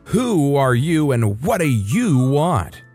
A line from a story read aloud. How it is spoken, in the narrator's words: almost shouted